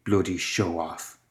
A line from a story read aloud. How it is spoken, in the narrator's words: Gwen could see him mouth something under his breath